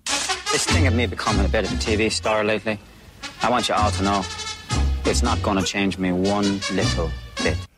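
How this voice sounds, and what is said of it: Poor put-on Dublin Irish accent. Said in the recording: “trying to do a Dublin accent ... what sort of an abomination of an accent that was. It's vaguely Northern Irish, coupled with this thing that every Hollywood actor does when they think they have to do an Irish accent”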